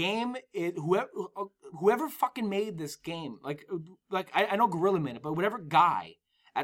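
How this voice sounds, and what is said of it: Usual voice. Nothing is said of it.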